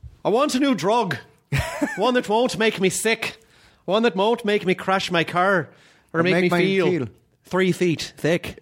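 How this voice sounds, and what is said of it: Put-on Irish accent, slight lisp. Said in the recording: “Irish new drug ... I try to do the Brendan Gleeson thing where he does the little bit of a lisp ... It's just a little bit of a lisp”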